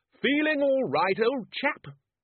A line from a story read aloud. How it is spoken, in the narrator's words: shouted